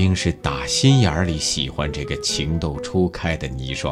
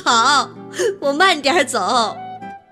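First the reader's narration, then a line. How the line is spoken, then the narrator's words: Teasing, laughing. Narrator (Chinese): 许冰扑哧一声笑了，他转过身来又忍不住逗他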